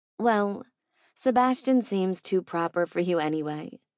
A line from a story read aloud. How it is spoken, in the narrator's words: she said smoothly